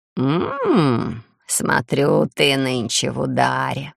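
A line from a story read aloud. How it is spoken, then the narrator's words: Sensual purring. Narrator (Russian): промурлыкала, едва не облизываясь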